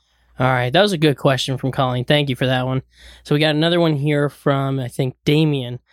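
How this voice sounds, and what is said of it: Hoarse, strained voice. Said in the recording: “Are you losing your voice? ... A little bit, yeah.”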